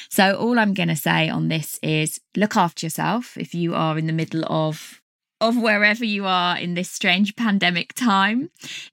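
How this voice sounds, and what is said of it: Strained, failing voice. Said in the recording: “My voice is totally going.”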